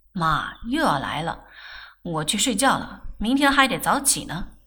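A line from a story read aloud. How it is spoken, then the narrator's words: Laughing. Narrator (Chinese): 他笑道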